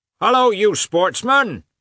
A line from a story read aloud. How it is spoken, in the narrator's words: shouted one of several peasants